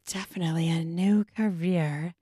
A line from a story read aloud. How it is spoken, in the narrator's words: Wendy murmured